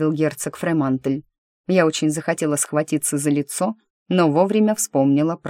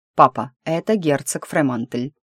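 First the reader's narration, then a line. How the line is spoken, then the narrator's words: Cold, through teeth. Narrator (Russian): холодно процедил Маккорн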